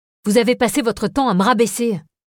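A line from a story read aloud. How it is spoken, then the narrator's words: Shouted. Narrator (French): criai-je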